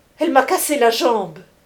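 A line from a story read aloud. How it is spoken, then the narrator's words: Cried out. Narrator (French): criait Contenson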